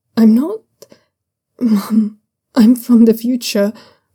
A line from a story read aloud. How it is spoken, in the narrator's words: Zhaoyunlan says, his voice nearly breaking